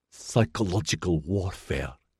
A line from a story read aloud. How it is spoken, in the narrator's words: she hissed